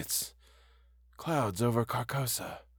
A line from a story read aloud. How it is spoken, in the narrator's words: he murmured, just loud enough for me to make out